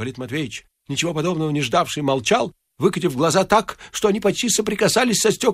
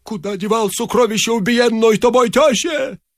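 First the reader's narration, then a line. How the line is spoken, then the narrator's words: Hoarse shout. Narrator (Russian): закричал охрипшим голосом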